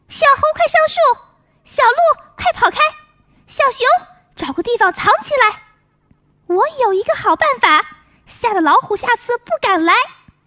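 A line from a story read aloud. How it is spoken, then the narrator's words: Loud shouting. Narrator (Chinese): 他大声喊起来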